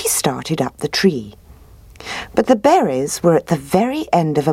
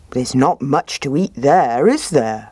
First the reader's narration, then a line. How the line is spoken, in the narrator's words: he said